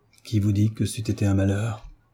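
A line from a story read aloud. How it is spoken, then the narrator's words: Muffled adolescent voice. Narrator (French): répondit l'adolescent d'une voix sourde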